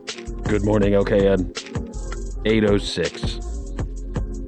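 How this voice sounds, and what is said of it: Low, muffled voice. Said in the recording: “my voice sounds so low and muffled, it's because of this deliciously smelling towel that's on my face right now”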